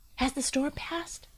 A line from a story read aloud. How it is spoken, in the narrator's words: Ferret whisper in his ear